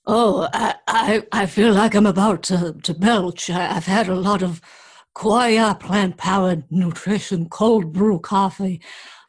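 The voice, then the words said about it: Hoarse voice. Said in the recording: “You sound a little hoarse.”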